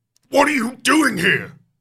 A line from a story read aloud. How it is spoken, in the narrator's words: He snarls angrily